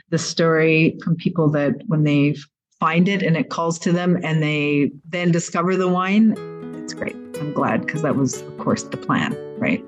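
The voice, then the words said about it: Canadian-sounding accent. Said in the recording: “I thought she would have an Italian accent, but no. She sounds more Canadian, eh?”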